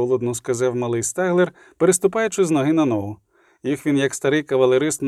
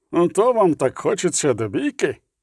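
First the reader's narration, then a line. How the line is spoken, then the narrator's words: Drawn-out growl. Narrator (Ukrainian): Півгарниць загарчав, протягло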